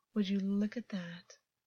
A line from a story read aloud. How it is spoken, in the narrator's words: August breathed with a dark sort of satisfaction